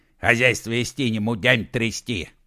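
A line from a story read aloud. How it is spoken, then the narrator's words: Grumbling in imitated voice. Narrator (Russian): проворчал он голосом Типалова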